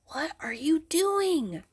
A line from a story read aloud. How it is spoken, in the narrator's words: Benny whispered